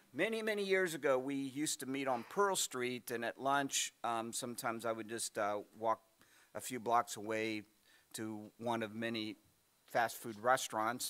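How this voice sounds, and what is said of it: Hoarse, strained voice. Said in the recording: “I'm losing my voice already”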